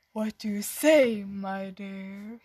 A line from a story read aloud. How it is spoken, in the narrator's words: He asked in a slow voice